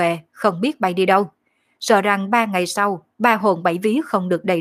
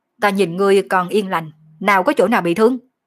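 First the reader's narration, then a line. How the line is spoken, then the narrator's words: Angry. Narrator (Vietnamese): Phong Khê giận dữ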